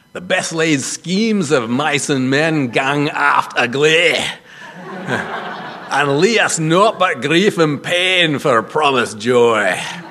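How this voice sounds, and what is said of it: Weak put-on Scottish accent. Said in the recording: “It's written in Scottish dialect, and my Scottish accent's pretty dodgy”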